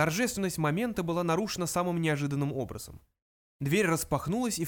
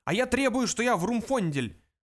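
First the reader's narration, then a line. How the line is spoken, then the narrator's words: Yelling, younger one. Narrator (Russian): заорал младший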